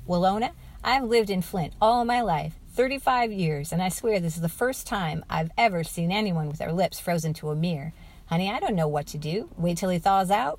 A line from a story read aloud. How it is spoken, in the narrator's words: Dad stopped laughing long enough to say